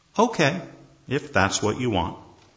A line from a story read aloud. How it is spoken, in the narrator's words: The husband calmly says